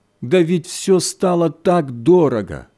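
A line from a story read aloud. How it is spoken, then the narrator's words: Moaning. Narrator (Russian): Хозяйка застонала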